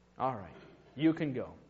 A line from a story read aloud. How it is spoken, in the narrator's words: the father thought for a moment, and then he replied softly